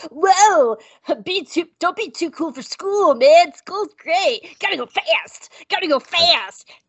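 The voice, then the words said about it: Sonic the Hedgehog cartoon voice. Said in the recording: “my Sonic the Hedgehog impression”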